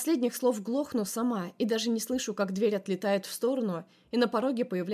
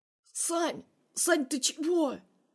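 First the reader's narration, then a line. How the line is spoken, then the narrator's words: Hoarse wheeze. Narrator (Russian): хрипит бедолага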